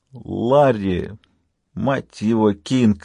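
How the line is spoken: Groan. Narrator (Russian): простонал доктор Майк

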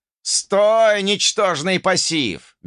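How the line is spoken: Loud yell. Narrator (Russian): громко заорал

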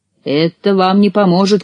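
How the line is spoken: Witch shouting. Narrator (Russian): крикнула ведьма

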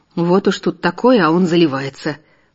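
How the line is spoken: Grumble. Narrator (Russian): проворчал Вадим

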